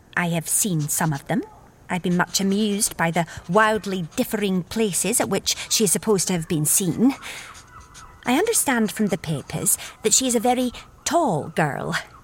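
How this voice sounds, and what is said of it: Scottish accent, character voice. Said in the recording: “Violet's Scottish accent”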